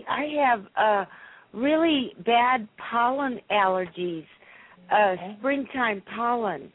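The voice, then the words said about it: Scratchy, hoarse voice. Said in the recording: “my voice is a little scratchy... I apologize for my scratchy throat”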